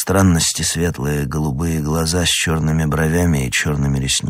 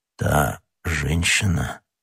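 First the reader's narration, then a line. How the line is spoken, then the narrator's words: Hollow, barely audible. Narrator (Russian): переспросил Атос таким глухим голосом, что Д'Артаньян едва расслышал его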